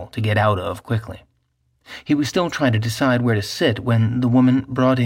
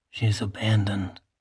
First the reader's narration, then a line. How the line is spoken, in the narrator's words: something whispered in his left ear